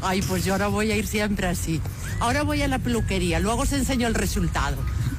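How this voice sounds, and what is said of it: Put-on Galician Spanish accent. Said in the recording (Spanish): “Es acento gallego, ¿eh? ... Sí, es muy, muy gallega.”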